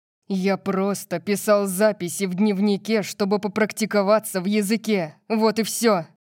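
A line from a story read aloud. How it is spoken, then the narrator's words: Growled. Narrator (Russian): прорычал Диего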